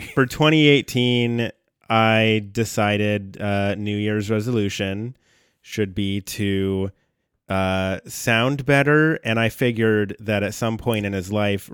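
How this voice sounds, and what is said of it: Rough, hoarse voice from a cold. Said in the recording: “I am recovering from a pretty nasty cold, so my voice is a little rough ... sopped up, pumped up on Sudafed”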